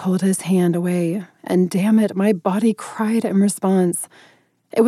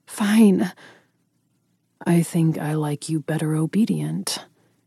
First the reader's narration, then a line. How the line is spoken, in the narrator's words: he replied hoarsely